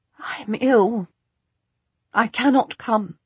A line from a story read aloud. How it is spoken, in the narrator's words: whisper